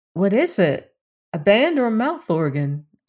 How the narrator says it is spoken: asked Dorothy

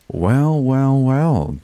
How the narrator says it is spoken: Jade purred

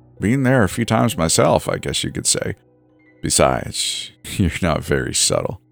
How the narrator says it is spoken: the old man said with a light chuckle

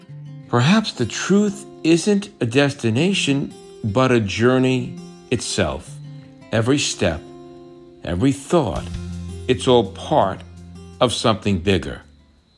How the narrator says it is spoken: Aravi, softly almost whispering, says

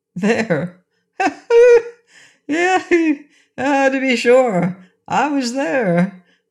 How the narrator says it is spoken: laughed Rinkitink

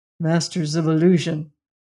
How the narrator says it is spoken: he murmured

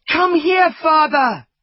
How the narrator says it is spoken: shouted

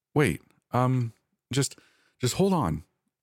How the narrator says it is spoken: I stammered

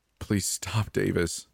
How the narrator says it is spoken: I begged

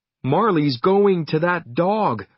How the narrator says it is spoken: shouted

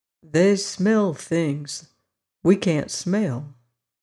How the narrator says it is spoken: said he very slowly

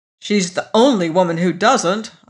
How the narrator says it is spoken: I snapped

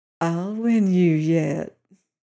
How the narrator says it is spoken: Layla said, and her voice was purring with satisfaction now

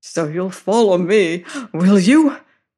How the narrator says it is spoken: panted

